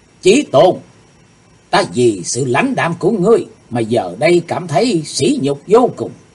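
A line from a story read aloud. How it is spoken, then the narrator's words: Sudden loud shout. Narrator (Vietnamese): Đột nhiên hồng y nữ xảo nhi hét lớn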